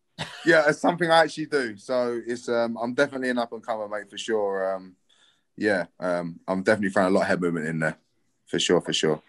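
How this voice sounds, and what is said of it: London English accent. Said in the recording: “my dodgy accent... I'm from London”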